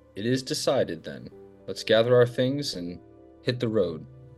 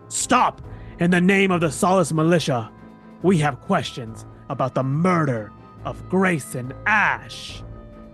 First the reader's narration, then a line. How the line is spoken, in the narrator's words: Lucius shouts